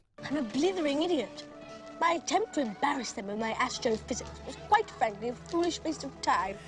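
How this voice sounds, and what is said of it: Exaggerated over-enunciated British accent. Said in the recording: “his accent, because it's bogus ... can you just enunciate every single syllable of every single word, please? ... But still mumble? ... His inflection is... Awful ... incessantly British, it feels ... wildly British ... It's a caricature”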